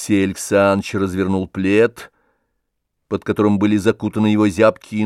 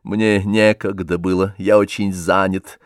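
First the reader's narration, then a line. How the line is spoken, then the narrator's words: Dry curt reply. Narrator (Russian): сухо ответил Алексей Александрович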